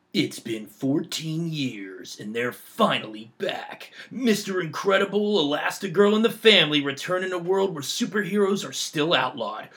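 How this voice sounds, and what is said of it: Dramatic movie trailer announcer voice. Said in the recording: “movie, trailer, voices ... you have a movie trailer voice?”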